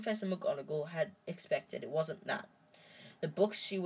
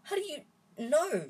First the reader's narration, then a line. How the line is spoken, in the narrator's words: she spluttered